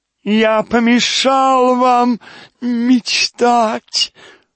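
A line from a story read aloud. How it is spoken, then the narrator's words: Nasal drone. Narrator (Russian): загнусавил он снова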